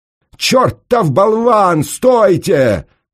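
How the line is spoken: Howled. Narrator (Russian): взвыл пристав

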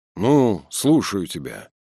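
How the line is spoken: Tired, slightly displeased. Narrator (Russian): Ватутин отвечал уставшим голосом и слегка недовольно

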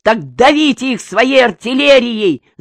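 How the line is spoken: General shouting. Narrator (Russian): закричал генерал

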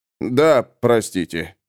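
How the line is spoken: Muttered, spearman. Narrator (Russian): буркнул копейщик

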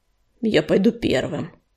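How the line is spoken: Muttering. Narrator (Russian): пробормотал он

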